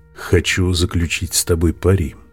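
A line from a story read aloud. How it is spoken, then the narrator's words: Plain. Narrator (Russian): сказал Будда обезьяне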